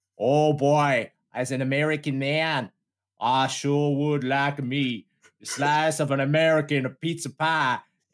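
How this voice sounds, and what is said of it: Put-on exaggerated American accent. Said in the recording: “Is that JFK? or is it Harry Sundown? ... I 50%, 50% engaged in the accent”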